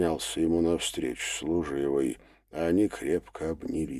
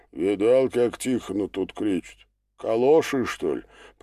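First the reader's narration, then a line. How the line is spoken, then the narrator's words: Deep bass voice. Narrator (Russian): пробасил кто-то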